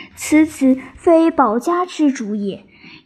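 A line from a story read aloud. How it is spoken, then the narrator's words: Sighing. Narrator (Chinese): 诸葛瑾叹曰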